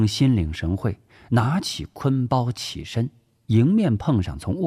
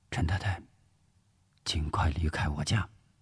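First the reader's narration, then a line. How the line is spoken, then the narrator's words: Whisper. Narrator (Chinese): 吴石悄声说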